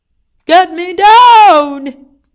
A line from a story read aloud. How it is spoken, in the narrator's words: He shouted